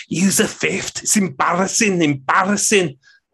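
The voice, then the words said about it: Imitated Scouse accent. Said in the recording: “Apologies for my embarrassing Scouts accent there.”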